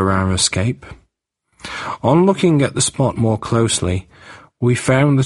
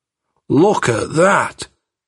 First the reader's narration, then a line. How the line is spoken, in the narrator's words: cried